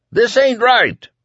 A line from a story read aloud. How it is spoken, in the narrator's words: Whitney yelled